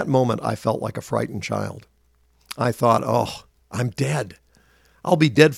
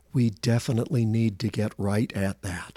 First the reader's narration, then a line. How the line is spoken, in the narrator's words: compassionately said